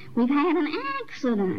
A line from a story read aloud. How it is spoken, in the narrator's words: the children shouting